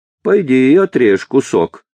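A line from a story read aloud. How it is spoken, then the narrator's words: Joyless laugh. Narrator (Russian): так же невесело засмеялась Ганна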